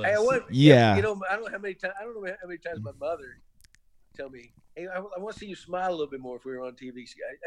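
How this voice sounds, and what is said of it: Gentle Southern American accent. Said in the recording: “your nice, like, gentle Southern accent”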